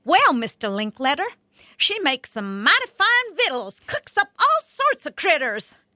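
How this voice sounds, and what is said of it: Thick Southern hillbilly accent, Ellie Mae Clampett. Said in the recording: “I suddenly was Ellie Mae Clampett from the Beverly Hillbillies, thick southern accent and all.”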